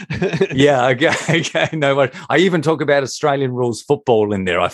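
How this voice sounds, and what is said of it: Australian accent. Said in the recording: “if you can handle my accent ... Americans really like Australian accents”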